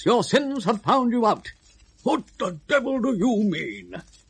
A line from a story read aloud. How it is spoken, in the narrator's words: Galahad, speaking in a sharp, unpleasant voice